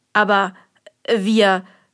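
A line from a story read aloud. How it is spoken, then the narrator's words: Stammered. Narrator (German): stotterte er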